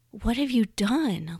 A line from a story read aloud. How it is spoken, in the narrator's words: Lena breathed